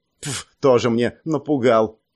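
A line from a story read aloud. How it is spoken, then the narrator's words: Dismissive snort. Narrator (Russian): Фыркнула пренебрежительно Суи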